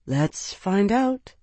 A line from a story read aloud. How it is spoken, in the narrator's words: Isana murmured